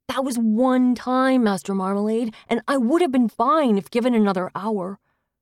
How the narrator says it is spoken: said indignantly

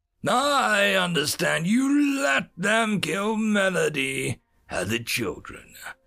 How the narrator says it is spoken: Darth Hominus snarled

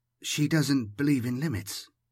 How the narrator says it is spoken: Laurent murmured

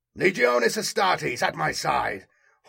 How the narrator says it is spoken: Horus yelled

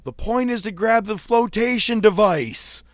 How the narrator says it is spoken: I yell out, I go

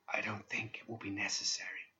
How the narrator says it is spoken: He said in a sad whisper

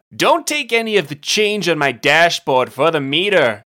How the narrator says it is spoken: Bront loudly instructed

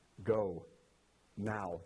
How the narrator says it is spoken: the angel said

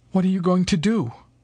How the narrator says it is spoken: Mary said quaveringly

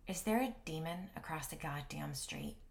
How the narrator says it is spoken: I muttered

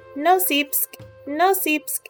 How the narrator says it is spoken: the trap called out

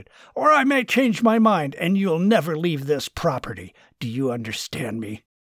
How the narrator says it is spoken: Martin shouted

